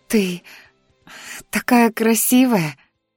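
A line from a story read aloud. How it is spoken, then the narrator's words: Breathless delight. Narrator (Russian): восторженно выдохнула Дионика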